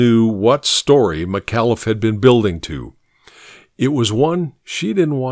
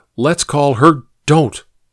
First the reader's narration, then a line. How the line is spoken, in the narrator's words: Finn blurted